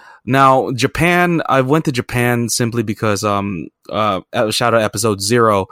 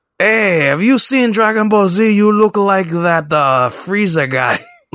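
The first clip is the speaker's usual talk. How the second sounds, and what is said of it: Poor put-on Mexican accent. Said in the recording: “That's my poor Mexican accent, so please forgive me”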